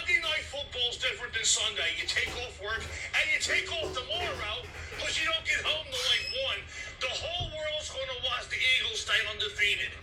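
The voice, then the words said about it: Philadelphia Delco accent. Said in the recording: “That's a perfect Delco accent. ... That's what they sound like up there. ... that's what they call Philly accent.”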